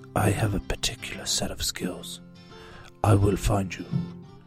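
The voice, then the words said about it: Imitates a film actor's menacing voice. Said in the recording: “I'm trying to get my Liam Neeson voice.”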